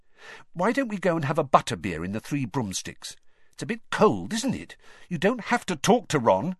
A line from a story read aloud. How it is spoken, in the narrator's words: she added irritably